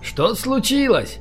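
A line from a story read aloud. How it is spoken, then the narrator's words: Male shout. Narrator (Russian): крикнул он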